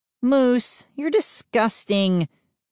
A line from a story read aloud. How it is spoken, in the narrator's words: Mindy groaned